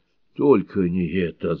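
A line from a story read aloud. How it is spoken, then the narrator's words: Groaning. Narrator (Russian): застонал Мартин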